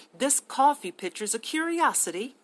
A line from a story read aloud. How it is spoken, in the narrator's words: she murmured